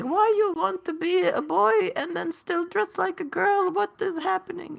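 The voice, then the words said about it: Imitates a parent's accent. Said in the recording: “I hate that I know that accent.”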